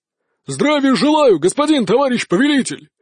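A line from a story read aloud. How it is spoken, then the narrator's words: Barked group reply. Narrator (Russian): гаркнули они в ответ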